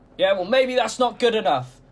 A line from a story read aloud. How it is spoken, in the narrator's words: shouted